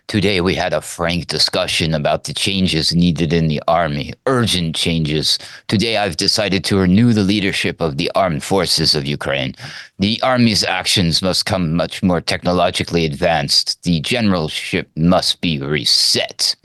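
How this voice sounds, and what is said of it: Zelensky impression resembling Klaus Schwab. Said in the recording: “my impression probably sounded a little more like Klaus Schwab”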